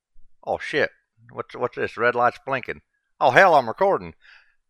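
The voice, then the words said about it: Speaks with a strong accent. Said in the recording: “you can't understand my accent.”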